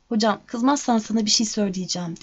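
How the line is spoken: Plain. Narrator (Turkish): dedi

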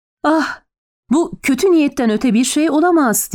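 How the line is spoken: Exasperated cry. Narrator (Turkish): diye haykırdı John Dee sabrı taşarak

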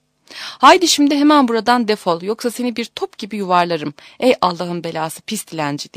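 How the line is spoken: Crying out. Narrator (Turkish): diye haykırmış

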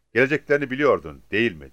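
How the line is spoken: Plain. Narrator (Turkish): dedi

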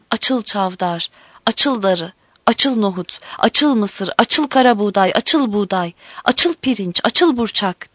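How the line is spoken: Crying out. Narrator (Turkish): diye haykırmış

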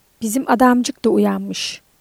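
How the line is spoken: Hoarse voice. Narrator (Turkish): boğuk bir sesle

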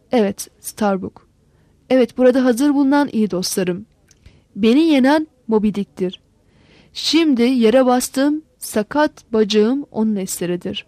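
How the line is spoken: Angry and sorrowful voice. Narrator (Turkish): Sonra durarak hem öfke hem de üzüntülü bir sesle

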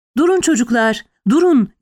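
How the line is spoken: Soldier's booming shout. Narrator (Turkish): diye bağırdı gür sesiyle asker

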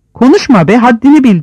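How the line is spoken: Shouted. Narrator (Turkish): diye bağırdı Yıldırım

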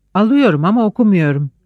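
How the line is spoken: Laughing. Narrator (Turkish): Refik güldü

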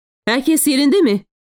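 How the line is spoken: Shouted. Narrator (Turkish): diye bağırdı

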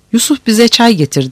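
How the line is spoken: Shouted. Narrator (Turkish): diye bağırdı

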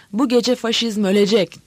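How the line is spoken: Shouting. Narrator (Turkish): diye bağırıyordu şimdi Pepas

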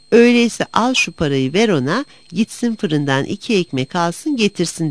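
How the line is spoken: Father, laughing. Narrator (Turkish): O zaman babası gülerek

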